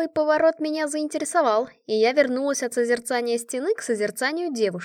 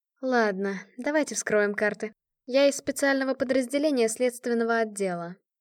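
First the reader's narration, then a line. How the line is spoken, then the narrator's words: Thoughtful, after a sigh. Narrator (Russian): Света вздохнула, о чем-то размышляя, потом сказала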